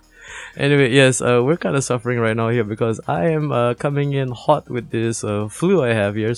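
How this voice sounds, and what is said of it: Phlegmy, raspy sick voice. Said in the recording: “my voice is a little bit phlegmy, a little bit raspy”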